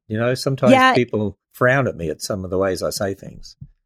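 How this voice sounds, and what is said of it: Australian accent. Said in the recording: “I have an Australian accent, so it probably comes out different”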